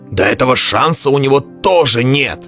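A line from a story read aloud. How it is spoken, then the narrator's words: Roaring. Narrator (Russian): взревел Пелвар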